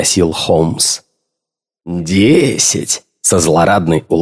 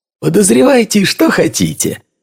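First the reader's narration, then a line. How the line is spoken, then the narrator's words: Cheerful reply. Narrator (Russian): весело ответил Лейстрейд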